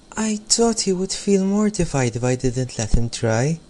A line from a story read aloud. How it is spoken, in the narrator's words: replied Katie quietly